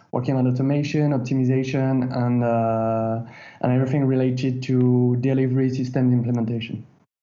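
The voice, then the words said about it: French accent. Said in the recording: “the French accent”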